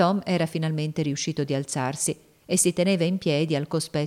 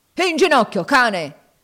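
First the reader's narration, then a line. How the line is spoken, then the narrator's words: Yell. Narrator (Italian): urlò Legree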